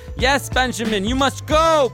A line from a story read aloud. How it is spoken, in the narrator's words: Pinochet yells out